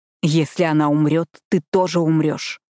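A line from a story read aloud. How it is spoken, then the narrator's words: Growled. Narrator (Russian): прорычал он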